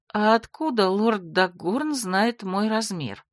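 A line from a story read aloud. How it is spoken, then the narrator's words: Confused asking. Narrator (Russian): растерянно уточнила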